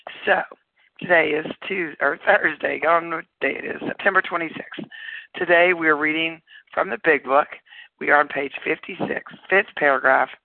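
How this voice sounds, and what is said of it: Raspy voice. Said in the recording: “with a raspy voice”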